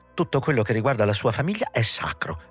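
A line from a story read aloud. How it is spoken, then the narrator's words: Exclaimed. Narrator (Italian): esclamava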